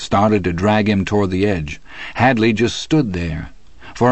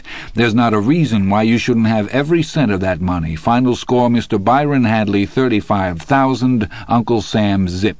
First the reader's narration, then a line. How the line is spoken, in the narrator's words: he said in that same calm, composed voice